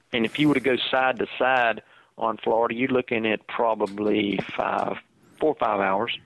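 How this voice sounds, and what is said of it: Southern American accent. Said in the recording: “your close to Georgia accent ... what part of Texas are you from?”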